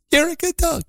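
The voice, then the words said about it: High-pitched baby-talk voice. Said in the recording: “a high-pitched voice ... I can't get high enough ... I'm terrible at this ... my imitation”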